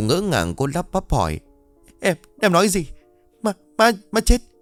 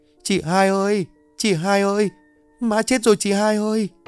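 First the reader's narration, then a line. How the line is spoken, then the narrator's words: Sobbing, broken speech. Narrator (Vietnamese): Nó mếu máo nói tiếng được tiếng mất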